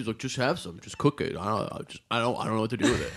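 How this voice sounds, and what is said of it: Impression of a friend's voice. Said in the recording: “That's good impression.”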